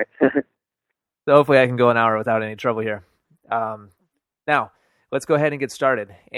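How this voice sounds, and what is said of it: Weak voice from a cold. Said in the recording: “I had a cold over the weekend ... my voice sounds a little weak”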